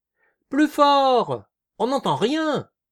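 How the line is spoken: Yelping from up high. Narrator (French): glapit Eugène du haut de son réverbère

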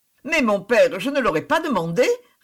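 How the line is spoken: Quick lively reply. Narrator (French): répondit Suzanne vivement

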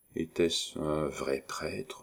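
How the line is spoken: Quiet question. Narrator (French): demanda-t-elle tout bas

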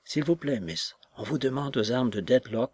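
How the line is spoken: Quiet female voice. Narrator (French): me dit-elle à voix basse

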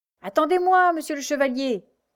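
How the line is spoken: Man shouting while struggling frantically. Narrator (French): criait cet homme qui se débattait comme un forcené

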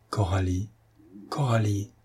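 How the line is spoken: Trembling emotional murmur. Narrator (French): murmura Patrice, la voix tremblante d'émotion

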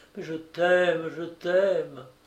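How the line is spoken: Murmured pleadingly. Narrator (French): implore, murmure

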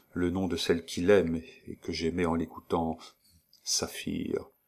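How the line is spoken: Murmured. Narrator (French): murmura-t-elle

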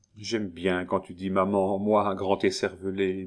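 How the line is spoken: Murmured by a woman. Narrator (French): murmura Madame Marcelin

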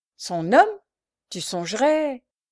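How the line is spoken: Indignant knife-grinder. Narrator (French): voulut commencer le rémouleur d'une voix indignée

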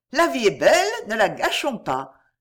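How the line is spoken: Cheerful. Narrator (French): dit gaiement

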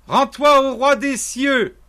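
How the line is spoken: Woman shouting. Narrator (French): lui cria-t-elle

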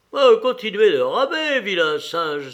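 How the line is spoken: Exclaimed. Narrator (French): s'écria Karl

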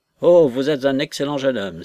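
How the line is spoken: Exclaiming. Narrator (French): s'écria Mrs

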